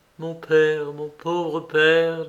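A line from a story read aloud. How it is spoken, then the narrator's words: Plain. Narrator (French): dit-elle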